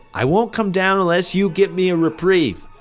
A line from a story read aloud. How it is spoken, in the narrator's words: Douglas yelled to the warden